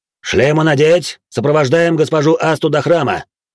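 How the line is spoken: Barked order. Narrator (Russian): рявкнул Зодда

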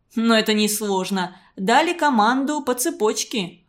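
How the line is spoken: Plain. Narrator (Russian): ответил Игорь

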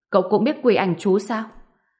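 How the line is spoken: Shocked shout. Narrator (Vietnamese): Từ Chí Thân mặt liền biến sắc, hét lên

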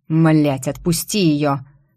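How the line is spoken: Angry growl. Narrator (Russian): прорычал Тим

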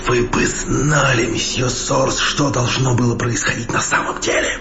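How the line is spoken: Mysterious whisper. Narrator (Russian): таинственным шепотом сказал Иванович

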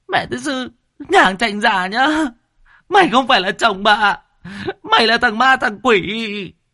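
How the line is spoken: Whimpering, near tears. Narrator (Vietnamese): Bà ấy mếu máo

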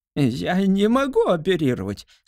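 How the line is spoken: Whining. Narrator (Russian): скулил

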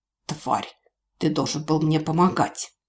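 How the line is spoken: Angry whisper. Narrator (Russian): зло прошептал

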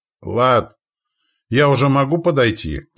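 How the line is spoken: Shout. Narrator (Russian): крикнула Видана

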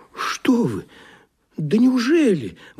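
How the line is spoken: Trembling exclamation, island. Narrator (Russian): воскликнул остров и задрожал всеми своими вулканами

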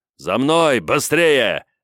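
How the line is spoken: Commander's barked order. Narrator (Russian): рявкнул командир

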